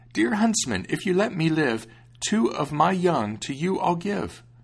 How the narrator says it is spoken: old hare, the hare cried out

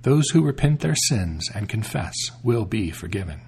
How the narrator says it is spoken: She said to the queen kindly

